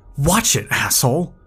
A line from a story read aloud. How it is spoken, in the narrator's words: he exclaimed